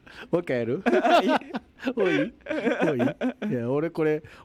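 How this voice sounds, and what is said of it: Usual voice. Nothing is said of it.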